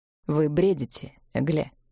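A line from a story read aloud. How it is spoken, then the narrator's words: Said dryly. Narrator (Russian): сказал он сухо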